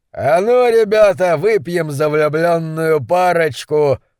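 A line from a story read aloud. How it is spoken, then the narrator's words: Roaring. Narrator (Russian): проревел рослый капитан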